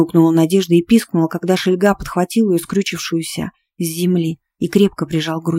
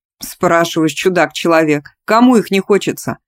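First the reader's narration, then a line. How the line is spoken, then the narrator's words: Chuckling. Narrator (Russian): хохотнул собеседник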